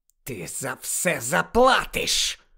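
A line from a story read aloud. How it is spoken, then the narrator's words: Hissed. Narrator (Ukrainian): прошипів Малфой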